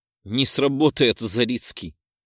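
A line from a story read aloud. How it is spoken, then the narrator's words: Snorting. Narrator (Russian): фыркнула я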